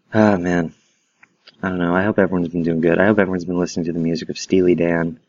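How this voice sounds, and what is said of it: Quiet, hushed speaking voice. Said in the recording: “my voice is quiet, it's because I don't want to disturb my boyfriend who's sleeping”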